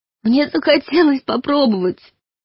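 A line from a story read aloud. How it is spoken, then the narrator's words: Sobbing confession. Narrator (Russian): схлипывая от рыданий, призналась Юлька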